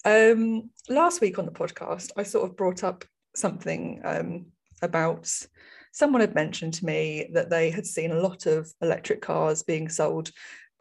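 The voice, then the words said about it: Strained, fading hoarse voice. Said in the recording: “I'm losing my voice now. Not good.”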